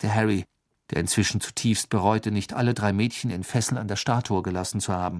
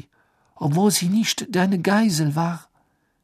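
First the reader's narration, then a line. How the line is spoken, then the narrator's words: Gasping. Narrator (German): keuchte sie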